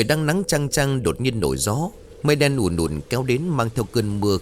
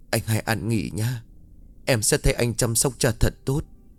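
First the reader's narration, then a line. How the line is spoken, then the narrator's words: Sobbing. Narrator (Vietnamese): Cô nức nở nói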